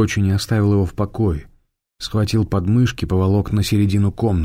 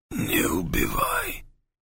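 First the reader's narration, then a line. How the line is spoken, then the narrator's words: Wounded man's hoarse voice. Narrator (Russian): сипел раненый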